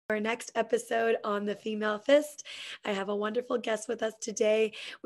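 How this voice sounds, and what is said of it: Slightly raspy voice. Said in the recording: “I'm not really sick... my voice is a little raspy. It's allergy season”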